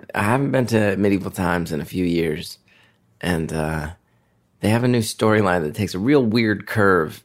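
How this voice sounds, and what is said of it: Hoarse, strained voice. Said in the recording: “my voice is a little blown out because I was screaming, screaming from my uh, my marbles”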